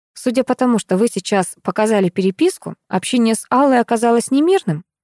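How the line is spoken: Plain. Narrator (Russian): спросила я Анатолия

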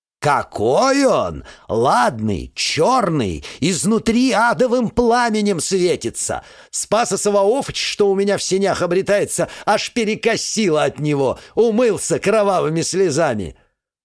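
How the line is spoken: Witch shouting into phone. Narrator (Russian): прокричала бы в трубку ведьма

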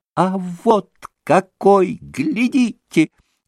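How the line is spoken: Sudden shriek. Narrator (Russian): взвизгнул вдруг штабс-капитан

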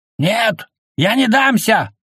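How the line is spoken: Yelled. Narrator (Russian): заорал

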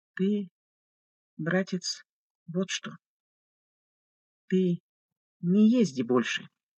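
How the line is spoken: Gentle request. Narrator (Russian): мягко попросил отец Гурий

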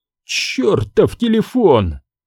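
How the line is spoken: Furious exclamation. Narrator (Russian): еще больше взбешенный, он воскликнул

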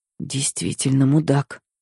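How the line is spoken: Whisper. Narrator (Russian): прошептала я

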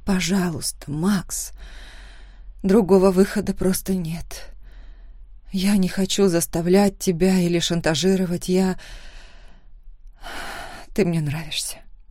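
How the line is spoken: Muffled mumble. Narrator (Russian): пробормотала я, уткнувшись в его спину

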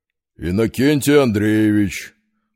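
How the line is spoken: Deep booming bass. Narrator (Russian): прогудел офицер густым басом

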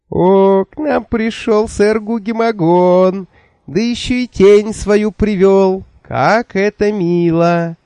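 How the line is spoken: Comic high squeak. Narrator (Russian): Комически тоненьким голоском пропищал Джуфин

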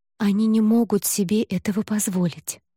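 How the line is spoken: Plain. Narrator (Russian): ответила Айла

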